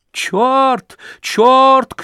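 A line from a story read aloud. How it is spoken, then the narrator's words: Shouting after someone. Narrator (Russian): кричала вслед за ним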